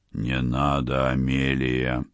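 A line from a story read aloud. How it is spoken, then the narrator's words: Hoarse voice. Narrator (Russian): послышался хриплый голос Лона Селитто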